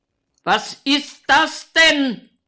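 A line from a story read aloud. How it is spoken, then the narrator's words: Excessively loud shout. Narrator (German): schreit er überlaut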